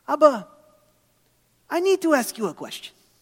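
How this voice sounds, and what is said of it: Poor imitation of Israeli accent. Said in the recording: “in her thick Israeli accent ... my Israeli accent is pretty terrible”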